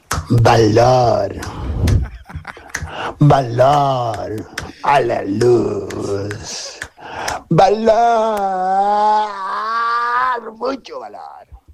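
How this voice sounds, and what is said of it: Hoarse, strained singing voice. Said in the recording (Spanish): “Estoy afónico, perro, no me sale.”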